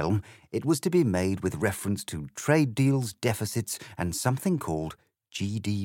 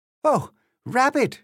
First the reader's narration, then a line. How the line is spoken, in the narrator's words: she cried